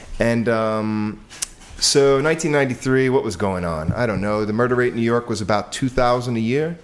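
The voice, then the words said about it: New York accent. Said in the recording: “I'm from New York, in case you haven't heard my wonderful, sexy accent.”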